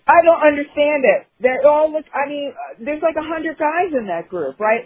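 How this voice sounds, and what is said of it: New York accent. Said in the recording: “I have a New York accent.”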